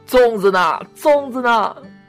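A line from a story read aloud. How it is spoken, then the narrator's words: Crying out. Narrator (Chinese): 我哭着喊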